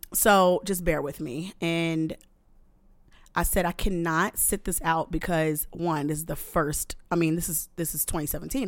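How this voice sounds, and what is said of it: Voice slightly off, under the weather. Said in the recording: “my voice is a little off because Christmas and New Year's and winter and cold New York”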